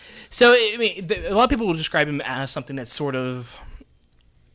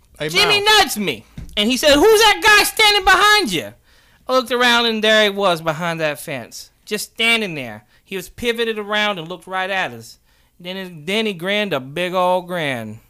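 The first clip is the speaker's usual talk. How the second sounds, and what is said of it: Put-on New Jersey accent. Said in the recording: “That was my New Jersey. ... Your New Jersey accent is something. ... It needs work? ... Yeah.”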